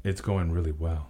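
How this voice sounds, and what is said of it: Smooth late-night DJ voice. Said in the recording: “in that late night DJ voice”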